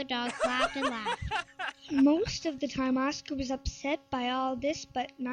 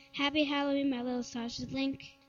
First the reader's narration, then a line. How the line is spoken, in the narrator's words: said Oscar's mother